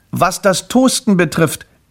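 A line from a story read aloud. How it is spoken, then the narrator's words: Calling after someone. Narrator (German): rief Grimpel hinter ihr her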